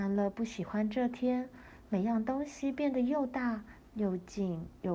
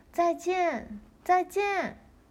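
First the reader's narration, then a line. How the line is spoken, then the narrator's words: Loud calling. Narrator (Chinese): 爱丽丝 大声叫着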